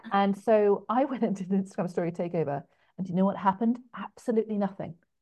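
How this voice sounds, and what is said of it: English accent. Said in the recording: “my English accent might be kind of cute”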